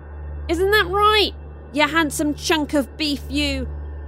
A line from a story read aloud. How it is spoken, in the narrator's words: Zuri shouted towards Austin